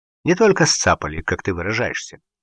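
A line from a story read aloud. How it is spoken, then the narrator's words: Calm retort. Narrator (Russian): спокойно парировал Гуров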